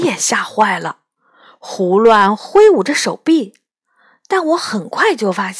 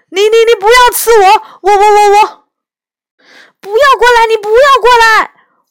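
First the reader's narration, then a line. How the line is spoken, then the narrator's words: Loud frightened shouting. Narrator (Chinese): 高声喊着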